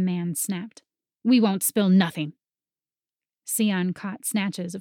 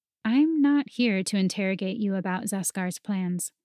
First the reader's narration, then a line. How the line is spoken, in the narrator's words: Sion said calmly